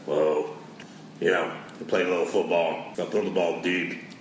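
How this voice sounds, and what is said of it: Impression of Andrew Luck. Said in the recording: “do you want to do his impression of Andrew the Giant Luck”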